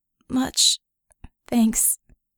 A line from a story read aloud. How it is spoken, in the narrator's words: Vickie croaked